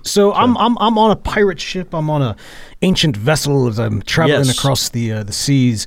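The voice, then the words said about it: Wavering put-on accent. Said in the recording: “my accent keeps going back and forth and back and forth in the same way.”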